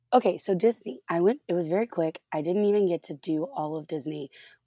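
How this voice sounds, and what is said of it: Harsh, hoarse voice. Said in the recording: “I'm still recovering from laryngitis, so my voice is still kind of harsh”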